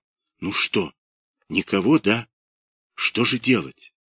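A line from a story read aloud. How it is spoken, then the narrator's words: Whispered question. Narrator (Russian): спрашивала шепотом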